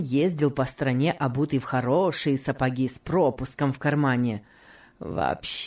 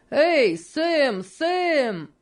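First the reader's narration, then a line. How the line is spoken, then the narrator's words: Shouting. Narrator (Russian): закричал Энди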